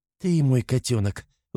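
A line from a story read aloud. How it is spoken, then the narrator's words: Mother cooing tenderly. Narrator (Russian): ласково щебечет мама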